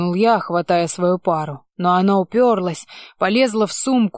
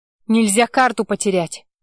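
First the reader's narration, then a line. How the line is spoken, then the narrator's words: Snapping. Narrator (Russian): огрызнулась она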